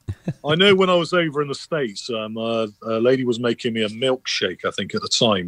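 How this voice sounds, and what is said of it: English accent. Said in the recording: “It's the English accent, I think. ... It's the accent. People love the accent.”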